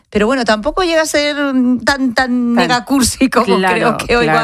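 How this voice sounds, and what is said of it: Usual voice. Nothing is said of it.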